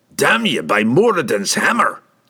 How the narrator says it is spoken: Brunner spat

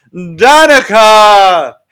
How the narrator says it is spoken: Henrik shouted

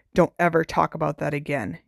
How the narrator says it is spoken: Harry snarled

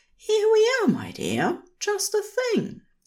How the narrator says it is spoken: he says cheerfully

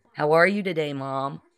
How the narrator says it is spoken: Gloria repeated more loudly, enunciating clearly

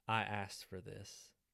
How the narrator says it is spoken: Scudder calmly responded with

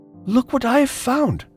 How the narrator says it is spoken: cried his daughter

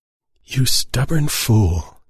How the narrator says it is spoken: he could hear Madison mutter

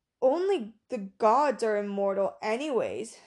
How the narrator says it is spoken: sighed Gilgamesh

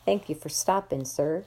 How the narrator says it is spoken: the bigger one of the two boys who got on the bus late said to the driver in a real down south accent

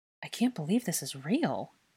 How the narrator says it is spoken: Katie said quietly

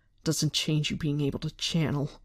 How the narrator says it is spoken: Matt muttered

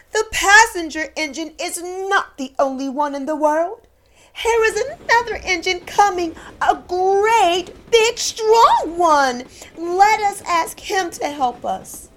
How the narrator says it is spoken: the little clown called out

